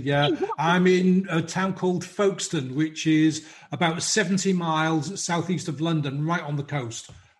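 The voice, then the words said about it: British English accent. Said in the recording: “your accent kind of gives it away ... I'm in the UK, obviously.”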